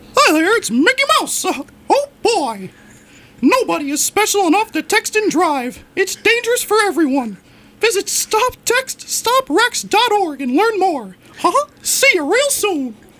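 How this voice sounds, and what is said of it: Mickey Mouse cartoon voice impression. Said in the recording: “Best Mickey Mouse impression.”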